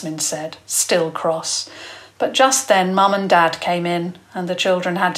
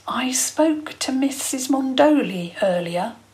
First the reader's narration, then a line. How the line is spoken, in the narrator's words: he said quietly